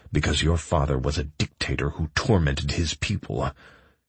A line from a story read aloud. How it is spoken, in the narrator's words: snarled